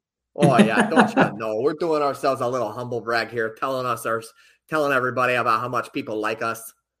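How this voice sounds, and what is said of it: Put-on Minnesota accent. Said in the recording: “throw on the Minnesota accent”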